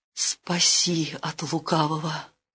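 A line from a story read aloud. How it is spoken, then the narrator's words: Terrified pleading. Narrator (Russian): ужас обуял княгиню, взмолилась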